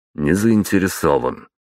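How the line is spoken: Curt, dry. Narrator (Russian): сухо бросил я

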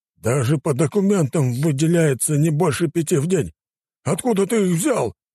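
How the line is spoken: Roaring governor. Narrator (Russian): взревел наместник

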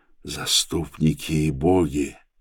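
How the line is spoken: Whisper. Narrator (Russian): шептал я

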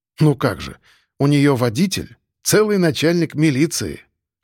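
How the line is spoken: Short laugh. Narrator (Russian): хохотнул

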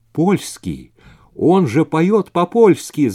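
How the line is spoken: Shout. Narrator (Russian): закричал Вейзак

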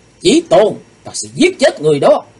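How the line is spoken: Shout. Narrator (Vietnamese): Nàng quát lên

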